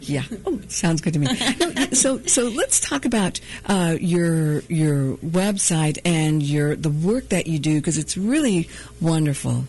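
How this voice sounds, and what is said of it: Soothing, sexy radio voice. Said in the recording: “your radio voice is soothing ... It's very sexy ... It's all the whiskey and the cigarettes I can smoke.”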